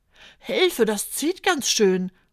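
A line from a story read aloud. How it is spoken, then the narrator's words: Calls out. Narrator (German): ruft Fiete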